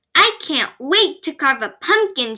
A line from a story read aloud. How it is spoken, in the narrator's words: Sammy exclaimed